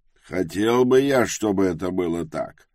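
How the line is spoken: Sighing. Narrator (Russian): вздохнул Тревис

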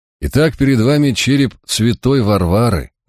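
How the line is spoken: Mocking pronouncement. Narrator (Russian): насмешливо изрек Кромвель

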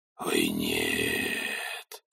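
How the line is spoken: Low voice. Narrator (Russian): вполголоса сказал он

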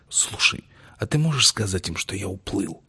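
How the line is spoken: Whispered question. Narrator (Russian): шепотом спросил он у дракстера

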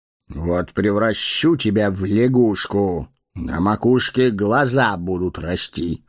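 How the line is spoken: Menacing. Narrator (Russian): грозно нахмурился маг

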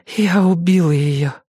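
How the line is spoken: Breathless exhale. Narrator (Russian): выдохнула она

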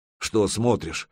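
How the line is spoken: Snorted. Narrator (Russian): хмыкнул Снилинг

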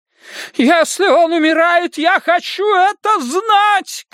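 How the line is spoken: Shouting mother. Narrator (Russian): кричала его мать

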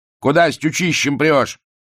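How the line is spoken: Loud bark. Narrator (Russian): гаркнул милиционер

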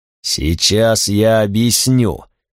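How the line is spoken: Choking growl. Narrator (Russian): прорычал я, давясь густым запахом грима

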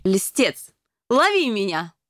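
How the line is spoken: Squealing. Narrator (Russian): с визгом

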